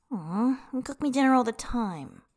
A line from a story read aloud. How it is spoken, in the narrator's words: Tangfan whines